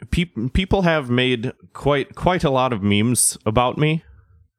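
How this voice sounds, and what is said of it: Put-on British accent. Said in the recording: “sounded a little British”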